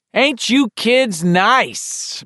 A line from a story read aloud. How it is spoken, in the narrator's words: Mandy would bellow